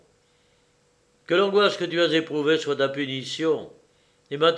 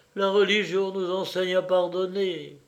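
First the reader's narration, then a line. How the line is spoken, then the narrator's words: Sighing. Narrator (French): ajouta-t-elle avec un soupir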